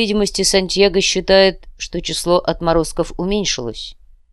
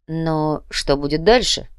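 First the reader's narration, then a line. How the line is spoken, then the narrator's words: Plain question. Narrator (Russian): спросил Себастьян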